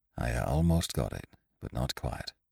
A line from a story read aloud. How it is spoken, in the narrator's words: he said in a low voice